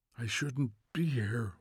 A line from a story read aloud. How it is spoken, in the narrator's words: whispered Montag, almost to himself